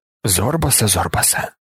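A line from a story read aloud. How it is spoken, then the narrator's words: Whisper to himself. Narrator (Ukrainian): прошепотів він сам собі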